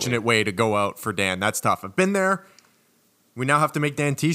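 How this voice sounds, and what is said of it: Usual voice. Nothing is said of it.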